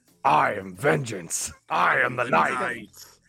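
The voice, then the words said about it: Kevin Conroy's Batman voice. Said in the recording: “I think of Kevin Conroy's when he does it.”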